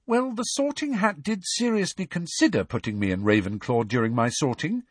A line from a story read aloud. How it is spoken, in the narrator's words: said Hermione brightly